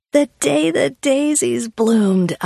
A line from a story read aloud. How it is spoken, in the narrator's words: I hooted, and we laughed so hard at ourselves